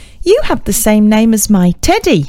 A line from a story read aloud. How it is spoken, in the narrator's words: laughed, proudly